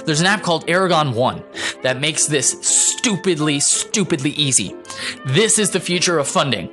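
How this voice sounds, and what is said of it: Excited, enthusiastic voice. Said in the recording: “I hope you can hear in my voice how excited this makes me.”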